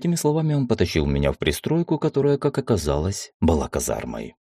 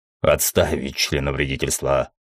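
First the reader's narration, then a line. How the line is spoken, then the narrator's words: Growl. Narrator (Russian): рыкнул Мефамио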